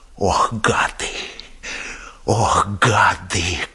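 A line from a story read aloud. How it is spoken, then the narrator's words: Numb-lipped incantatory whisper. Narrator (Russian): как заклятие шептал одеревеневшими губами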